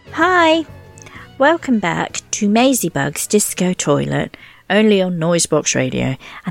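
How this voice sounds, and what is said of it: Posh English accent. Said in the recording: “that's my posh accent. They say I'm posh.”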